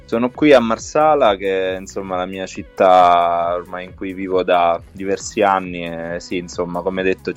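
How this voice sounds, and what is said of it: Western Sicilian Italian accent. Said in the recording (Italian): “sappiamo dal tuo accento che hai una appartenenza a una terra meravigliosa che è la Sicilia ... Sicilia occidentale”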